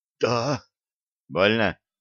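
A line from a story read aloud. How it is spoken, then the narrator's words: Strained whisper. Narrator (Russian): судорожно сглотнул и прошептал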